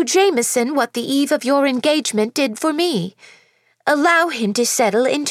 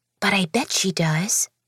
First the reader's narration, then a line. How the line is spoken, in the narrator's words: I whispered to myself